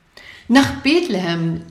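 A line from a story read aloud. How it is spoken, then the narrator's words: Urgent call. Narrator (German): rief Josua drängend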